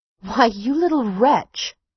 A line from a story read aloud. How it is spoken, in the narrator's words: cried Amory indignantly